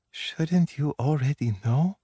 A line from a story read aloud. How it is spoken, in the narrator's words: Her breath was the merest whisper